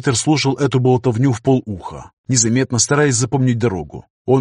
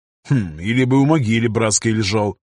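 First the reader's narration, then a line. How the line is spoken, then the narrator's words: Wry snort. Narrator (Russian): хмыкнул пограничник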